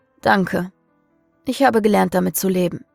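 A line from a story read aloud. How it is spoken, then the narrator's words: Exhausted sigh. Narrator (German): seufzte Samael erschöpft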